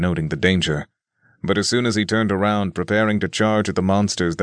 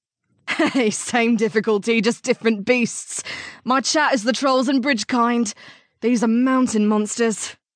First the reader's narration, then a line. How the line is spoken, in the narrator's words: she replied, laughing back